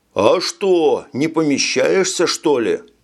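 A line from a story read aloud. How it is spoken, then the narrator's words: Soldier shouting back. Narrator (Russian): крикнул в ответ какой-то солдат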